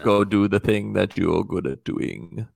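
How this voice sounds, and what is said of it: Vague generic foreign accent impression. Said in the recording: “I don't know how Zidane sounds ... really good impersonation ... the go-to accent when we don't know someone's accent, because that could be a lot of different countries”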